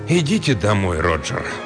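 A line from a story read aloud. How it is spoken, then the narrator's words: Gentle, kind. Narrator (Russian): ласково сказал Мервин Армбрестер, директор обсерватории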